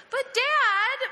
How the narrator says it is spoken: 8-year-old self whined

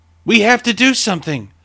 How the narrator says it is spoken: Deborah shouted

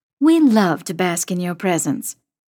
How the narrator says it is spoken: Mom says dryly

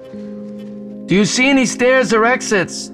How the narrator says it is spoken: Jason yelled

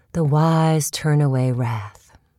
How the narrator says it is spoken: Mom says

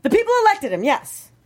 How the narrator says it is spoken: Farenthold exclaimed

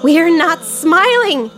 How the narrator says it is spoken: she shouted

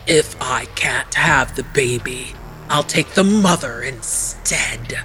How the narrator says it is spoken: Arpe hissed

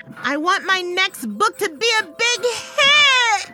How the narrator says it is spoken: I screamed, still grinding

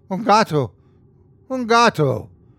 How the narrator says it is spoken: The Mexican woman stared at me with confusion and anger, exclaiming

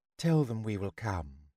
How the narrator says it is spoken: his wife, who said quietly

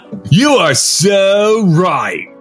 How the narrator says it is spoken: called the sneering voice again

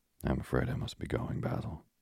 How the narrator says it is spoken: he murmured

